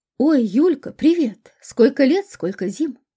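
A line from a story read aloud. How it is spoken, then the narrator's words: Joyful surprised exclamation. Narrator (Russian): воскликнула медсестра приемного покоя, узнав в прибывшей пациентке бывшую одноклассницу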